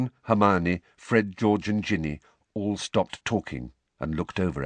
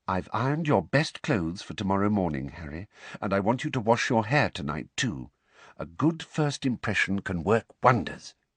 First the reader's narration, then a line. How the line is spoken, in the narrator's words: Weasley said quietly